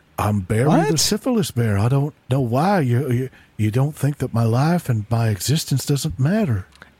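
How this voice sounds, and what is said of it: Silly bear character voice. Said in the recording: “this is ... doing a voice. This isn't an actual what? Bear.”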